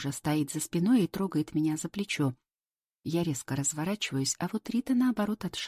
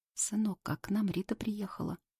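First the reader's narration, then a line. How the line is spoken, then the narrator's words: Forced calm, trembling voice. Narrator (Russian): Она старается говорить спокойно, но голос у нее все же дрожит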